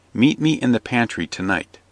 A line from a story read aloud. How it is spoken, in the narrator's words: as if asking him if he would have more wine, said softly